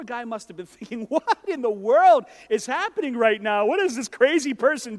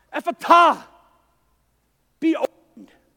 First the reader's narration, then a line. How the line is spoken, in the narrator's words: he heaved a sigh and he shouted out